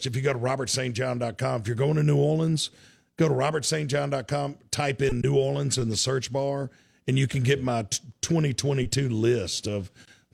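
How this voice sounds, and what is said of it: Slightly hoarse, worn-out voice. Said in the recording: “my voice is a little shot.”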